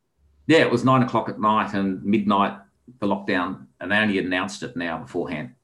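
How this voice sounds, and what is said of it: Heavy Australian accent. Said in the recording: “I have a heavy Australian accent.”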